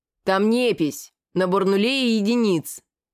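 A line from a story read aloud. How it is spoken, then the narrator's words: Calm growl. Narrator (Russian): Намного спокойнее, чем я, прорычал Галзу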